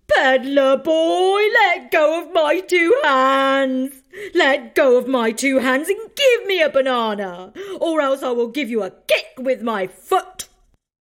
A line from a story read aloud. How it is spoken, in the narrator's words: Then the monkey called out